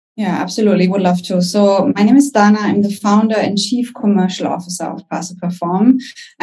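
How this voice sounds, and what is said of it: German accent. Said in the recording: “I'm German. You can probably hear it by my accent.”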